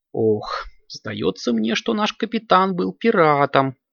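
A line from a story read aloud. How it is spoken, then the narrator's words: Muffled squeak. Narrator (Russian): пискнула Аленка из рюкзака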